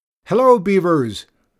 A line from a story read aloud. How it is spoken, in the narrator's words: called out